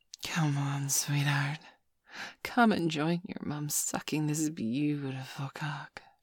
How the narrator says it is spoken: she breathed quietly to me

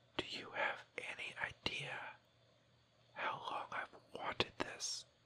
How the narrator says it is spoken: whisper in your ear

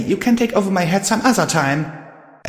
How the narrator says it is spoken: I snapped at the voice

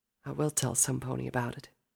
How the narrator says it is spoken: Applejack whispered

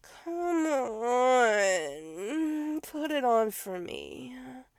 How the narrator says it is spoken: he whimpered

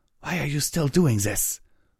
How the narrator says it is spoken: Nightmare Moon snarled

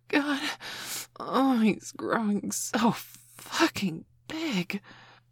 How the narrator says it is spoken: Mum gasped

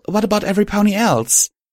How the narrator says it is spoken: I asked eagerly

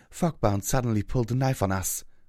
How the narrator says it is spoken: said between pants

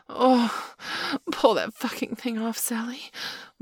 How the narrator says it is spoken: Marla wailed in an almost mindless rapture

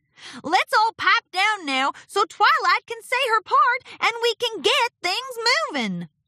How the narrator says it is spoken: Applejack shouted to the ponies

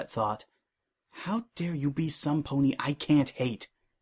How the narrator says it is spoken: She sighed

